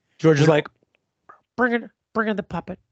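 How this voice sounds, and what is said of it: Imitates another person's voice. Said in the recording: “That was actually good. Better than the Espiro impersonation.”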